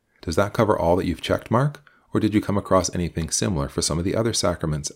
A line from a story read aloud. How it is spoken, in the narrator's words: asked Mary